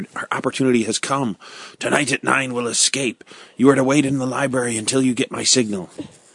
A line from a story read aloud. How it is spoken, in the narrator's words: Ned whispered